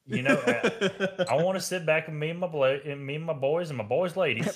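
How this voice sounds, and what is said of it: Put-on country accent. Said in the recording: “Is this beer pulling a country accent out of you? ... Hell yeah.”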